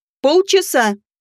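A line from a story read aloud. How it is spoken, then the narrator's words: Bark near ear. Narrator (Russian): рявкнули над ухом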